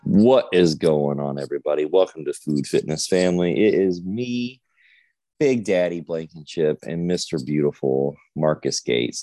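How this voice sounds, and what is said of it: Sleepy-sounding voice. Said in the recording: “you sound sleepy. ... I am sleepy.”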